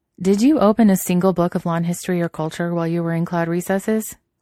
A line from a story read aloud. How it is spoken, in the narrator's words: Wen Ting asked, still trying not to laugh